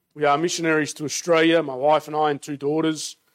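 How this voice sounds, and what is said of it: Australian accent. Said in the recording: “as you can tell from my accent, born and raised in Australia”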